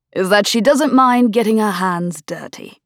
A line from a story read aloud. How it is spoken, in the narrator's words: Lord Bayford said smoothly